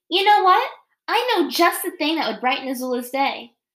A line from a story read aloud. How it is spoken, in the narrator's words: Ty Lee exclaimed